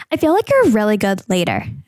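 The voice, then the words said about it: Valley Girl-style imitation of another person. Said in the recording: “that my Paige impression? ... it sounds more Valley Girl”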